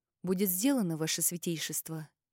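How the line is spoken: Whisper. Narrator (Russian): прошептала тень

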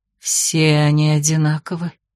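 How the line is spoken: Bitter exhale. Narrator (Russian): горько выдохнула Зонтария

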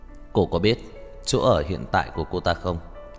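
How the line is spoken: Cold question. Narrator (Vietnamese): Lãnh Mặc Hàn lại lạnh lùng hỏi

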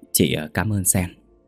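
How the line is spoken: Soft and kind. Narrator (Vietnamese): Liên nhẹ nhàng nói hiền từ

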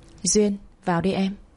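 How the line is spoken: Hoarse voice from afar. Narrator (Vietnamese): giọng nói khàn khàn vọng ra

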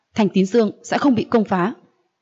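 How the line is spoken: Deep cold shout. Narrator (Vietnamese): Lãnh Kình Vũ trầm giọng quát, lạnh lùng nói

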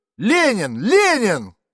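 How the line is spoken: Shouting from front rows. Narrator (Russian): крикнули с первых рядов

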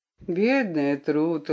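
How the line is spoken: Affectionate. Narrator (Russian): ласково сказал он

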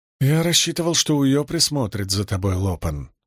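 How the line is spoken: Sigh. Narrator (Russian): вздохнул Каладин

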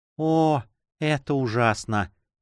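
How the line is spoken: Sorrowful whisper. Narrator (Russian): прошептала она горестно

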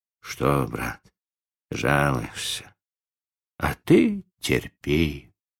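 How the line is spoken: Soft, tender whisper. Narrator (Russian): тихо гладил ее по резному боку и шептал ласково

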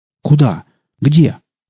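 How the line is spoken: Breathless exhale. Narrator (Russian): выдохнул

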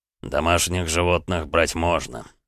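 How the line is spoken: Through gritted teeth. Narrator (Russian): сквозь зубы процедил Эдуард

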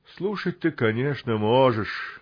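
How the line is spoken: Sad chuckle. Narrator (Russian): грустно усмехнулся Ворчун

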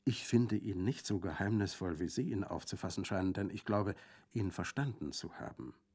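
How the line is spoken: Quiet reply. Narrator (German): erwiderte sie leise

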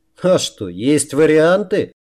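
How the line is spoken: Laughing loudly. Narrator (Russian): расхохотался Рамус

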